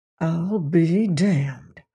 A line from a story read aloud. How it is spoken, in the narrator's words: breathed Mr